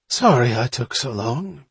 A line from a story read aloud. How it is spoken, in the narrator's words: panted Rosa